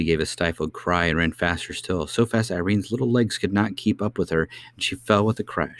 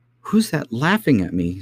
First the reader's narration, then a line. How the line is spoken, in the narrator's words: said the princess, trying to keep in her sobs